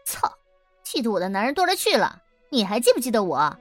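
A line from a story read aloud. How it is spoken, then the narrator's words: Laughing. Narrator (Chinese): 七宝笑起来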